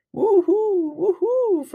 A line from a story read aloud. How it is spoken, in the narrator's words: Frankie wails